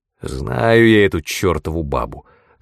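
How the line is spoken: Irritated grumble. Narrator (Russian): раздраженно буркнул Уоррен Трент

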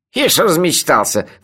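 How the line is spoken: Scornful snort. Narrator (Russian): фыркнул Мелифара

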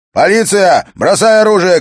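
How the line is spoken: Shouting. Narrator (Russian): крикнул Харри

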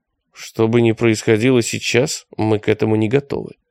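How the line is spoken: Plain. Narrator (Russian): сказал Виктор

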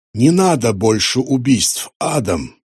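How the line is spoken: Quiet. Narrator (Russian): тихо сказал Шлак

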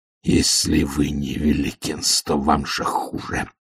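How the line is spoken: Low muffled growl. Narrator (Russian): прорычал Ваймс глухо

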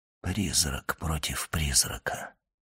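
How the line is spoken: Whispered. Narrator (Russian): прошептал он

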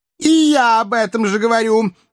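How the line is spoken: Cat's exclamation. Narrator (Russian): воскликнул кот

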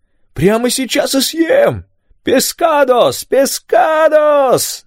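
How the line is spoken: Singsong shouting. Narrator (Russian): нараспев кричал Рафаэль

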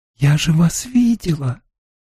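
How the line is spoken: Breathed out. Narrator (Russian): выдохнула Эгвин

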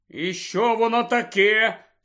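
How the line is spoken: Angry question. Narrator (Ukrainian): Сердито спитав

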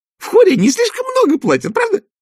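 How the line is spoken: Shrieked. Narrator (Russian): взвизгнула она

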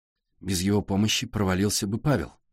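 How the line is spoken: Tired. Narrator (Russian): устало сказала Сашка

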